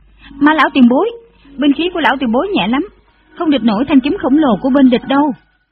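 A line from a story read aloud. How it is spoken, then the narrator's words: Loud shout. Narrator (Vietnamese): Dù Tiểu Quyền lớn tiếng hô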